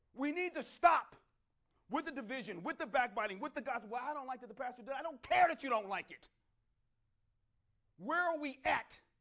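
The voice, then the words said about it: Angry yelling. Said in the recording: “I'm yelling in general. Because I'm angry.”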